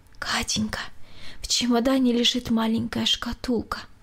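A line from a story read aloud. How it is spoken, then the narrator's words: Barely audible whisper. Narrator (Russian): едва слышно прошептала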